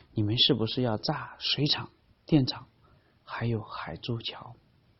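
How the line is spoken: Lowered voice. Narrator (Chinese): 李爱华压低了声音

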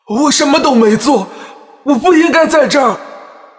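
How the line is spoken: Loud shout. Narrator (Chinese): 我大声喊

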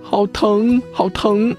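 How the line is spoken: Crying baby bird. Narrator (Chinese): 鸟宝宝哭着说

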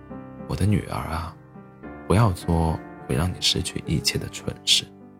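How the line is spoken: Mother's deep warning. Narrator (Chinese): 作为母亲，她 沉声警告公主

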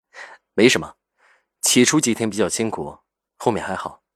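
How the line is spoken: Faint, calm laugh. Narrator (Chinese): 赵雨静淡淡笑道

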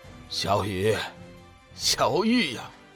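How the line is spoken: Sighing murmur to self. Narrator (Chinese): 玄冥子……轻叹一声，自语道

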